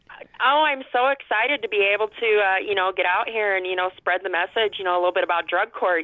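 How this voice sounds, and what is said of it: Upper Midwest or Canadian-sounding accent. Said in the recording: “What accent is that? That doesn't sound like Iowa. ... That sounds like Minnesota ... or something. ... Canada or something.”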